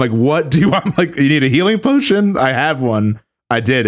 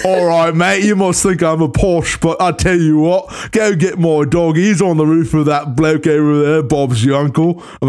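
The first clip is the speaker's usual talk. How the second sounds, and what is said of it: Put-on Cockney accent, little girl. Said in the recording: “her dialogue was written in such a Cockney accent”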